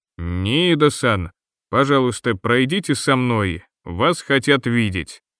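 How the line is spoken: Very stern man's demand. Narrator (Russian): максимально строгим голосом потребовал мужчина

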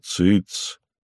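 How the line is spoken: Plain. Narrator (Russian): сказал Майкл

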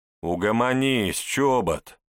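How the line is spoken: Lazy agreement. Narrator (Russian): Лениво поддержал ее Виталий Чернов, комсорг 11-го А

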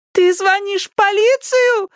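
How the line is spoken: Screaming. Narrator (Russian): завопила она

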